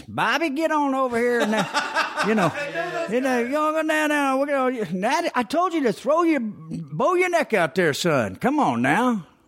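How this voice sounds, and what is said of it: High-pitched Southern accent. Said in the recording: “my baseball coach, his accent, you know. He's kind of one of those high-pitched Southerners.”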